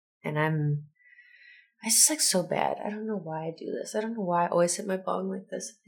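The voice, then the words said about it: Stuffy, congested-sounding voice. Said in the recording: “if I sound a little stuffy ... I sound like I'm dying”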